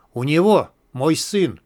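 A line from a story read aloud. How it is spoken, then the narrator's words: Choked strained voice. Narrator (Russian): выдавил придушенный Кремень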